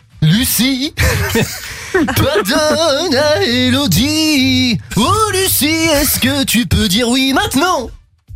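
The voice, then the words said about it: Sung impression of a singer. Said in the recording (French): “Ah, la magie de ... Merci à ... cette incroyable imitation.”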